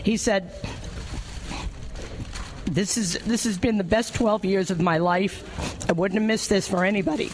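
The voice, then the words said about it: Tearful, emotional voice. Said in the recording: “the tears that you hear in my voice”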